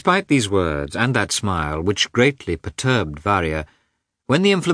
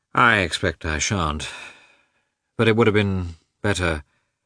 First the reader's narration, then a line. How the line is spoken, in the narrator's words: smiled gloomily